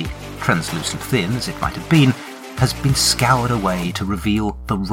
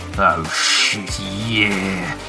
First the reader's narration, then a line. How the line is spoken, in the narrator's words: he moans